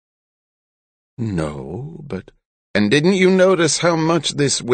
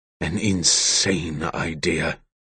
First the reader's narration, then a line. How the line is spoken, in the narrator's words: Kalexel growled